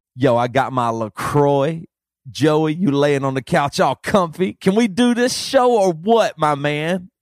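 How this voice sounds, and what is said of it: Youth pastor voice. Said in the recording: “the youth pastor voice”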